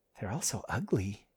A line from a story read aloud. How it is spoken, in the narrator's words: whispered